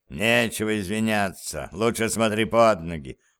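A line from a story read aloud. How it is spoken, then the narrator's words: Grumbled. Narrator (Russian): проворчал он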